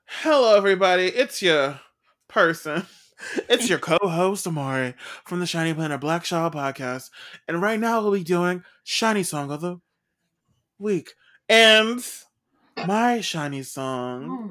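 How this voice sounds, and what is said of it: Put-on podcast presenter voice. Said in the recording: “Your podcast voice.”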